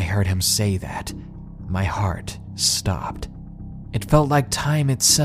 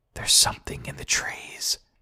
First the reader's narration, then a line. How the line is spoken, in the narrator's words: he whispered